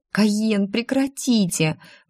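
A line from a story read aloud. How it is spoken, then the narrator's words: Pleading. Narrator (Russian): взмолилась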